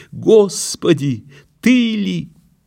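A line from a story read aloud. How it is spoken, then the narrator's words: Crowd crying out. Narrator (Russian): все вопияли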